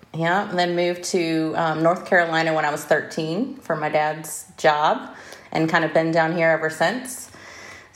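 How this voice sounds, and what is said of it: Slight Southern twang. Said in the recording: “a bit of a Southern accent ... I have a little twang”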